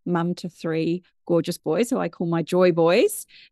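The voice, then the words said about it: British English accent. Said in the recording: “I'm originally from the UK, which you can probably tell by my accent”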